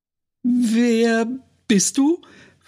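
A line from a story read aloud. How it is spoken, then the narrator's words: Too-loud question. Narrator (German): fragte sie zu laut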